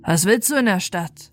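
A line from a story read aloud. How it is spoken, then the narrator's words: Gruff question from guards. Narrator (German): die Soldaten, die Wache hielten, fragten es barsch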